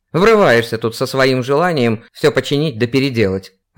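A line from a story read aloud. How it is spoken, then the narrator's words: Old man snapping. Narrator (Russian): огрызнулся старик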